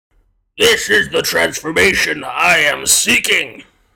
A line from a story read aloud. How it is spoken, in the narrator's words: glared up at the questioner with hard eyes before booming out